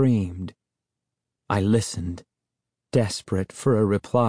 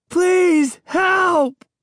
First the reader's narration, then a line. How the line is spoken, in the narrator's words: I screamed as loud as I could, tilting my head up to the hole in the ceiling